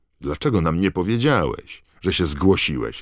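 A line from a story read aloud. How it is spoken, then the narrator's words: Roaring, half offended, half delighted. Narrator (Polish): ryknął Fred, trochę obrażony, a trochę zachwycony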